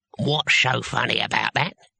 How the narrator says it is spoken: he asked, and his voice had knuckles in it

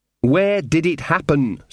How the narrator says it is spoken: said Magrat, trying to speak slowly and distinctly

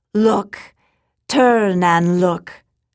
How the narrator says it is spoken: Then she called out

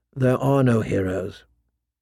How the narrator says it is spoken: a voice inside her whispered

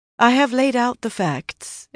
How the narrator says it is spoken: Egwene said calmly

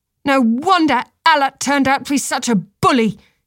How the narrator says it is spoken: she shouted

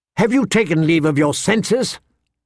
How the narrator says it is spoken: Lysa snapped at her

